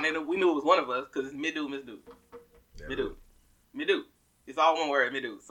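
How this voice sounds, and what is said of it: Southern American accent. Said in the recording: “you really don't hit your last letters ... I used to be ashamed of my southern accent”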